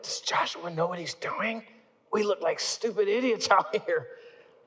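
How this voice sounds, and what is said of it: Whispering. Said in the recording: “I'm starting to whisper to my buddies”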